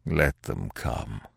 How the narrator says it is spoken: replied Pierre gloomily

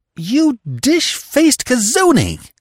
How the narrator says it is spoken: she exclaimed heatedly, her voice trembling with a sense of ill-usage

